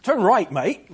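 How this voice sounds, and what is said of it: Put-on Australian accent. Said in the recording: “this Aussie, this Australian guy programmed into that does my voice on my GPS.”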